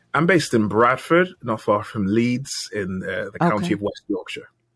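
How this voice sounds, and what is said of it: British accent. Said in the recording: “welcome from across the pond ... I'm a sucker for the accent”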